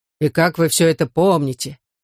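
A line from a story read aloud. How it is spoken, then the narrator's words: Count's bass voice, bewildered. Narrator (Russian): пробасил граф с полным недоумением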